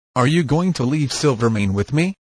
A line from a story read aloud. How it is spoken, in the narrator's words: asked Jack